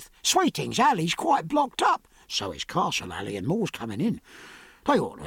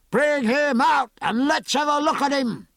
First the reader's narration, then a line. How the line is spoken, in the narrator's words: shouted the leader of another group